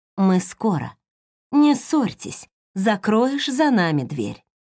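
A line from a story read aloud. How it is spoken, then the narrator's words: Smiling gentle repetition. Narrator (Russian): Линда только продолжала ласково улыбаться и повторять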